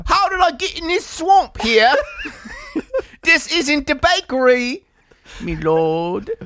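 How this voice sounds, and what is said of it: Put-on accent. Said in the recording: “I could see him fucking revving up for an accent.”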